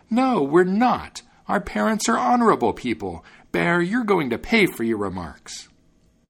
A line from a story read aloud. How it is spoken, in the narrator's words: the young wrens were tremendously angry and cried out